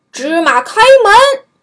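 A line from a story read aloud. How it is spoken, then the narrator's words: Loud shout. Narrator (Chinese): 这伙强盗 大声喊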